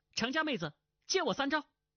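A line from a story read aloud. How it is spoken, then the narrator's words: Calling out. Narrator (Chinese): 叫道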